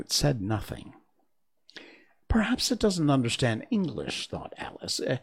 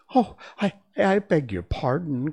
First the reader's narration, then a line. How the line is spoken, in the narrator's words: cried Alice hastily, afraid she had hurt the feelings of the poor animal